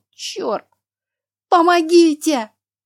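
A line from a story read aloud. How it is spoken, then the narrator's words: Full-lung scream. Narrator (Russian): закричала я во всю силу своих легких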